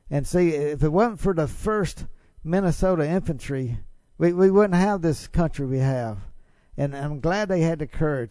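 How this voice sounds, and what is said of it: Mississippi Southern US accent. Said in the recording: “they can detect by my accent, I'm from Mississippi”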